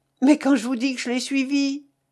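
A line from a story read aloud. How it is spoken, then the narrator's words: Exclaiming. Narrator (French): s'écria la Vatnaz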